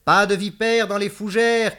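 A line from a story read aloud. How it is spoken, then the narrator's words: Shouting. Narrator (French): cria-t-elle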